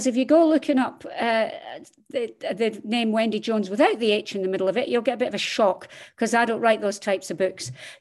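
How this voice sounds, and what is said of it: Scottish accent. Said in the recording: “As you can tell from my accent, I am Scottish”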